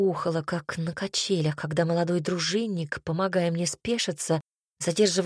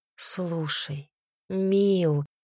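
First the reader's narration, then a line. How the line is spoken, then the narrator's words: Sighing stepmother. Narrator (Russian): вздохнула мачеха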